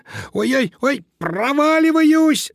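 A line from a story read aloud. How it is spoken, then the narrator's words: Panicked squeal. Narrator (Russian): завизжал Помпончик, поняв, что его лапки соскальзывают с железных стенок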